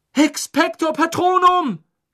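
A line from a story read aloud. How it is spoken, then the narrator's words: Screaming. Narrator (German): schrie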